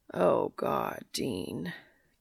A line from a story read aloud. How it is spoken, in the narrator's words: Cass moans